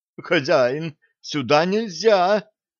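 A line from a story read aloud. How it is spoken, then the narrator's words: Pleading from behind. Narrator (Russian): взмолился из-за его спины управляющий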